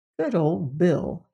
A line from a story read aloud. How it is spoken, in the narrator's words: he murmured to himself